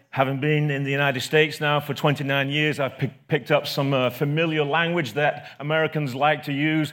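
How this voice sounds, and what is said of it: English accent. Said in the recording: “I have a strange accent ... the red coat oppressor ... For the Englishman.”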